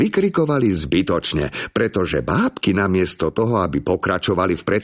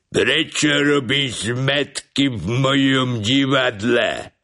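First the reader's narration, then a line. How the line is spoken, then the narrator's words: Puppeteer's terrifying voice. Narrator (Slovak): spýtal sa bábkár takým hrozným hlasom, až všetkých zamrazilo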